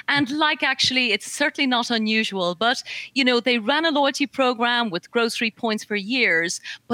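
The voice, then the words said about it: Irish accent. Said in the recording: “I'm Irish. I don't know if the accent's coming through ... Am I sounding Irish? ... Oh, yeah.”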